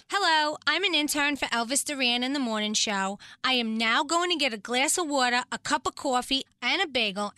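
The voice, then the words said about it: New York accent. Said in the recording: “we're New Yorkers ... Listen to her accent.”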